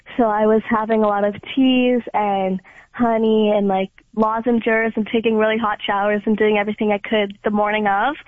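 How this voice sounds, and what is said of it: Slightly raspy voice. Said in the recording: “please don't mind my voice. I'm still kind of getting over a cold, so that's why it's a little raspy.”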